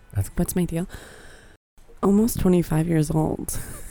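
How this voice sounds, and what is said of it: Quiet, whispery radio-style voice. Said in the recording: “whispering it like NPR here to the microphone ... you can be a little bit louder”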